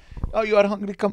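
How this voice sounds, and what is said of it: Put-on Arabic accent. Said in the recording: “he has an Arabic accent.”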